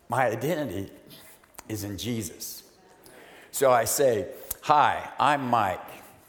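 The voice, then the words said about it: Emotional, choked-up voice. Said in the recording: “wow, I'm already getting emotional.”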